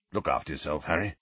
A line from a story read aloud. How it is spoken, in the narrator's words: Sirius was saying gruffly